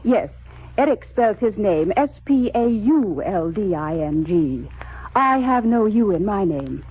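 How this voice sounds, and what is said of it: British accent. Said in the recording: “You both have a decided British accent.”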